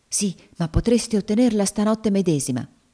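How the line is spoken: Vehement woman's exclamation. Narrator (Italian): esclamò la donna con impeto

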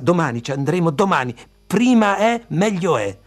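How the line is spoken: Grandmother's impatient shout. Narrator (Italian): E la nonna gridò con impazienza

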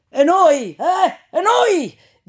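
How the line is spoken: Several voices shouting from ahead. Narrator (Italian): gridarono più voci dal carro che era avanti

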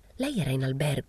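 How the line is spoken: Whispered. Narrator (Italian): bisbigliò

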